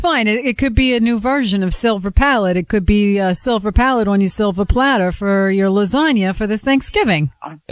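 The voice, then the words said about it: Thick New York or New Jersey accent. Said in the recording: “as thick an accent as you do ... New York or New Jersey”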